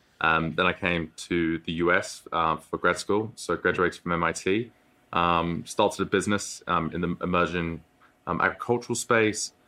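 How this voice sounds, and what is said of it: British accent. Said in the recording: “you can probably tell by the accent, grew up in the UK”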